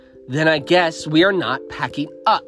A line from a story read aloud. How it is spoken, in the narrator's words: Rebecca spat back